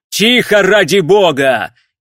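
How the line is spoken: Shouting. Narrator (Russian): крикнул он

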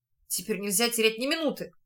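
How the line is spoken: Whisper. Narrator (Russian): прошептал Луш

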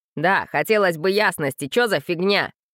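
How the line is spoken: Rough, backing someone up. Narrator (Russian): грубо поддержал Кикимору Герка

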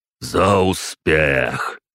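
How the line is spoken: Booming reply. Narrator (Russian): прогремел он в ответ

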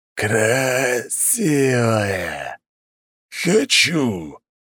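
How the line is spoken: Hoarse monstrous voice. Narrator (Russian): раздался хриплый голос чудовища, выбирающегося из лавы

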